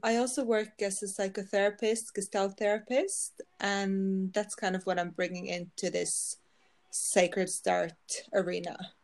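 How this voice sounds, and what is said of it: Norwegian accent in English. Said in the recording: “you also have an accent ... I'm from Norway. I live in Norway, so that's why I have the accent.”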